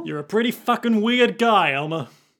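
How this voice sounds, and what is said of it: Cockney accent character voice. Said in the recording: “I'm doing this voice. He's got kind of a Cockney accent”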